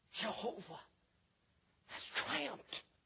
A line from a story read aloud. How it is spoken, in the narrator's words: Somebody whispered, maybe Moses